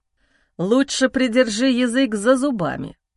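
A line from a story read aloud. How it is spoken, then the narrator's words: Low growl. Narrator (Russian): Глухое рычание вырывается из груди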